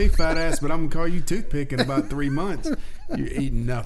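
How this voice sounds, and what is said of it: Usual voice. Nothing is said of it.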